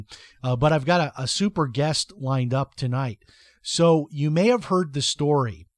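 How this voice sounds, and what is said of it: Dry, slightly hoarse voice. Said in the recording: “my voice is a little dry with all this triathlon training that I've been doing”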